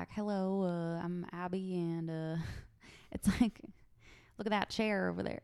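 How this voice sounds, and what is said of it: Very bad put-on Southern accent. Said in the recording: “It's like a southern accent ... it's a very bad southern accent”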